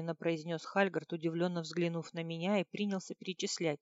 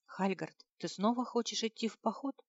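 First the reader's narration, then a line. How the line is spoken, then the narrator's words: Puzzled whisper. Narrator (Russian): шепотом спросила с недоумением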